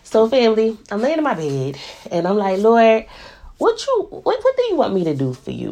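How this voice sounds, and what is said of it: Stuffy congested voice. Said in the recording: “I'm sorry if I sound stuffy. ... I still sound stuffy”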